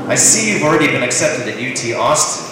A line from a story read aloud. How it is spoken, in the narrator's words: he says